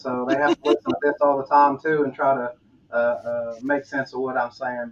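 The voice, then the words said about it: Southern US accent. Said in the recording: “I'm from the South, so I got the Southern accent.”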